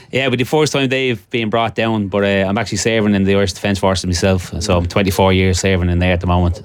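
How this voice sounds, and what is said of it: Dublin Irish accent. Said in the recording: “that's not a Gisala or an Eris accent ... I'm originally from Dublin.”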